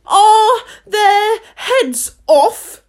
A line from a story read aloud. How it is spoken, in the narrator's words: shouted the Queen